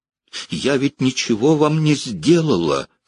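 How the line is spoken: Pleading. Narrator (Russian): взмолилась

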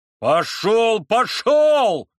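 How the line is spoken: Shouted. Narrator (Russian): закричал кузнец

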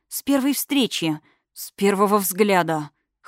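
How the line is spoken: Hoarse. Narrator (Russian): хрипло добавил ее любимый

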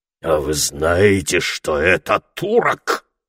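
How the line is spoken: Fierce question. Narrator (Russian): спросил он свирепым голосом

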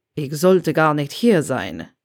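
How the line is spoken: Muttering. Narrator (German): murmelte er

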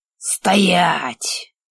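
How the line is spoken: Growled command. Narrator (Russian): рыкнул

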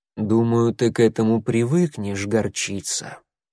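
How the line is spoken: Soft remark. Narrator (Russian): мягко заметил Буран

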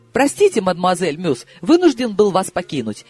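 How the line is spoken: Exclamation. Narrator (Russian): воскликнул он

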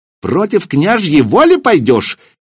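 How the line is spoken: Shrill shout over crowd. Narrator (Russian): визгливо, перекрывая гул голосов, выкрикнул вслед Сергею Ивановичу Семирад

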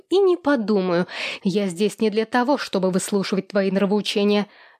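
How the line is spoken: Sharp. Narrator (Russian): резко ответила Екатерина

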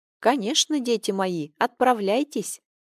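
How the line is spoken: Gentle old woman. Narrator (Russian): Ласково кивнула им старушка

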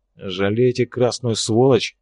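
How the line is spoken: Through gritted teeth. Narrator (Russian): процедил Арцулов, неохотно

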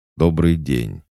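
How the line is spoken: Stern and curt. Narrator (Russian): строго и лаконично сказал мужчина

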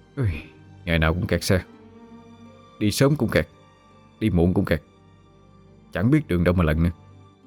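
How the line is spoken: Grumbling mutter. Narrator (Vietnamese): Anh miệng lẩm bẩm

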